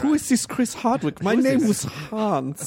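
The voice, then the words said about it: Good put-on German accent. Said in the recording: “That German accent is really good.”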